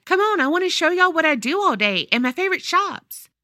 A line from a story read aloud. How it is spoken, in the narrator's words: My dad excitedly said